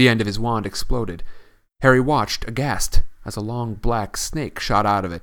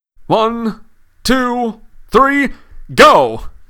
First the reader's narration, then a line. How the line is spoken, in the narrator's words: he shouted